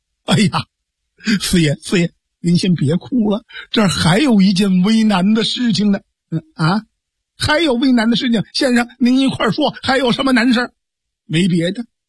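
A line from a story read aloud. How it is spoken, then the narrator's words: Hurried consoling. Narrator (Chinese): 公孙策赶快解劝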